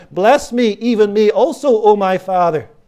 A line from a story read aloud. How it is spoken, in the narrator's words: cried with a great and exceeding bitter cry and said